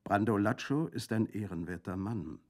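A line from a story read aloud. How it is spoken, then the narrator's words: Plain. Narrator (German): sagte Colomba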